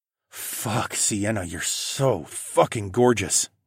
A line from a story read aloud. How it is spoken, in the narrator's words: I groaned